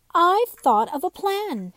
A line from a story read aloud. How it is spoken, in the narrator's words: Finally, Raggedy Ann cried